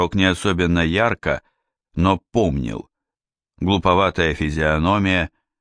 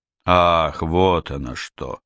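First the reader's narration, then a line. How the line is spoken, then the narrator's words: Drawn-out drawl. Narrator (Russian): протянул он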